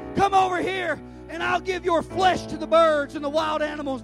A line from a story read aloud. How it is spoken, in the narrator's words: Goliath yelled